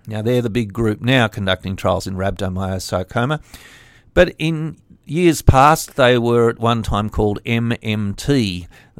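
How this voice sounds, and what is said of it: French-accented English. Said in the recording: “That's in French, in case you didn't notice my accent.”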